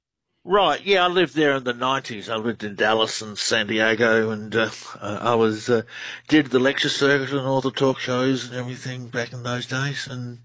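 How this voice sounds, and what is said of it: Australian accent. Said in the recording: “Australian researcher. Love the accent ... You have a great one.”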